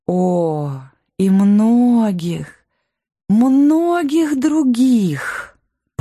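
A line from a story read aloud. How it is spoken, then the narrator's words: Drawling queen. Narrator (Russian): протянула королева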